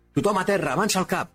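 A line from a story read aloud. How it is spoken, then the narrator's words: Shouted commandingly. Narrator (Catalan): va cridar el líder de l'equip de salt, recuperant finalment la iniciativa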